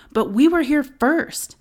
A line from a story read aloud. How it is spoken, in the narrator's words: Amy began to yell at the woman and cuss her out